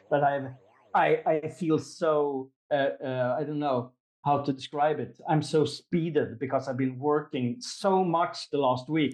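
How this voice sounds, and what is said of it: Swedish accent. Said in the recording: “sorry for my weird English sometimes, my accent, my Swedish accent”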